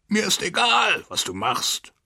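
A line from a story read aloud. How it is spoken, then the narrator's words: Shouting. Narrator (German): schrie er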